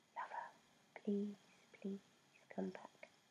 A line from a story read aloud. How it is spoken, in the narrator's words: whispered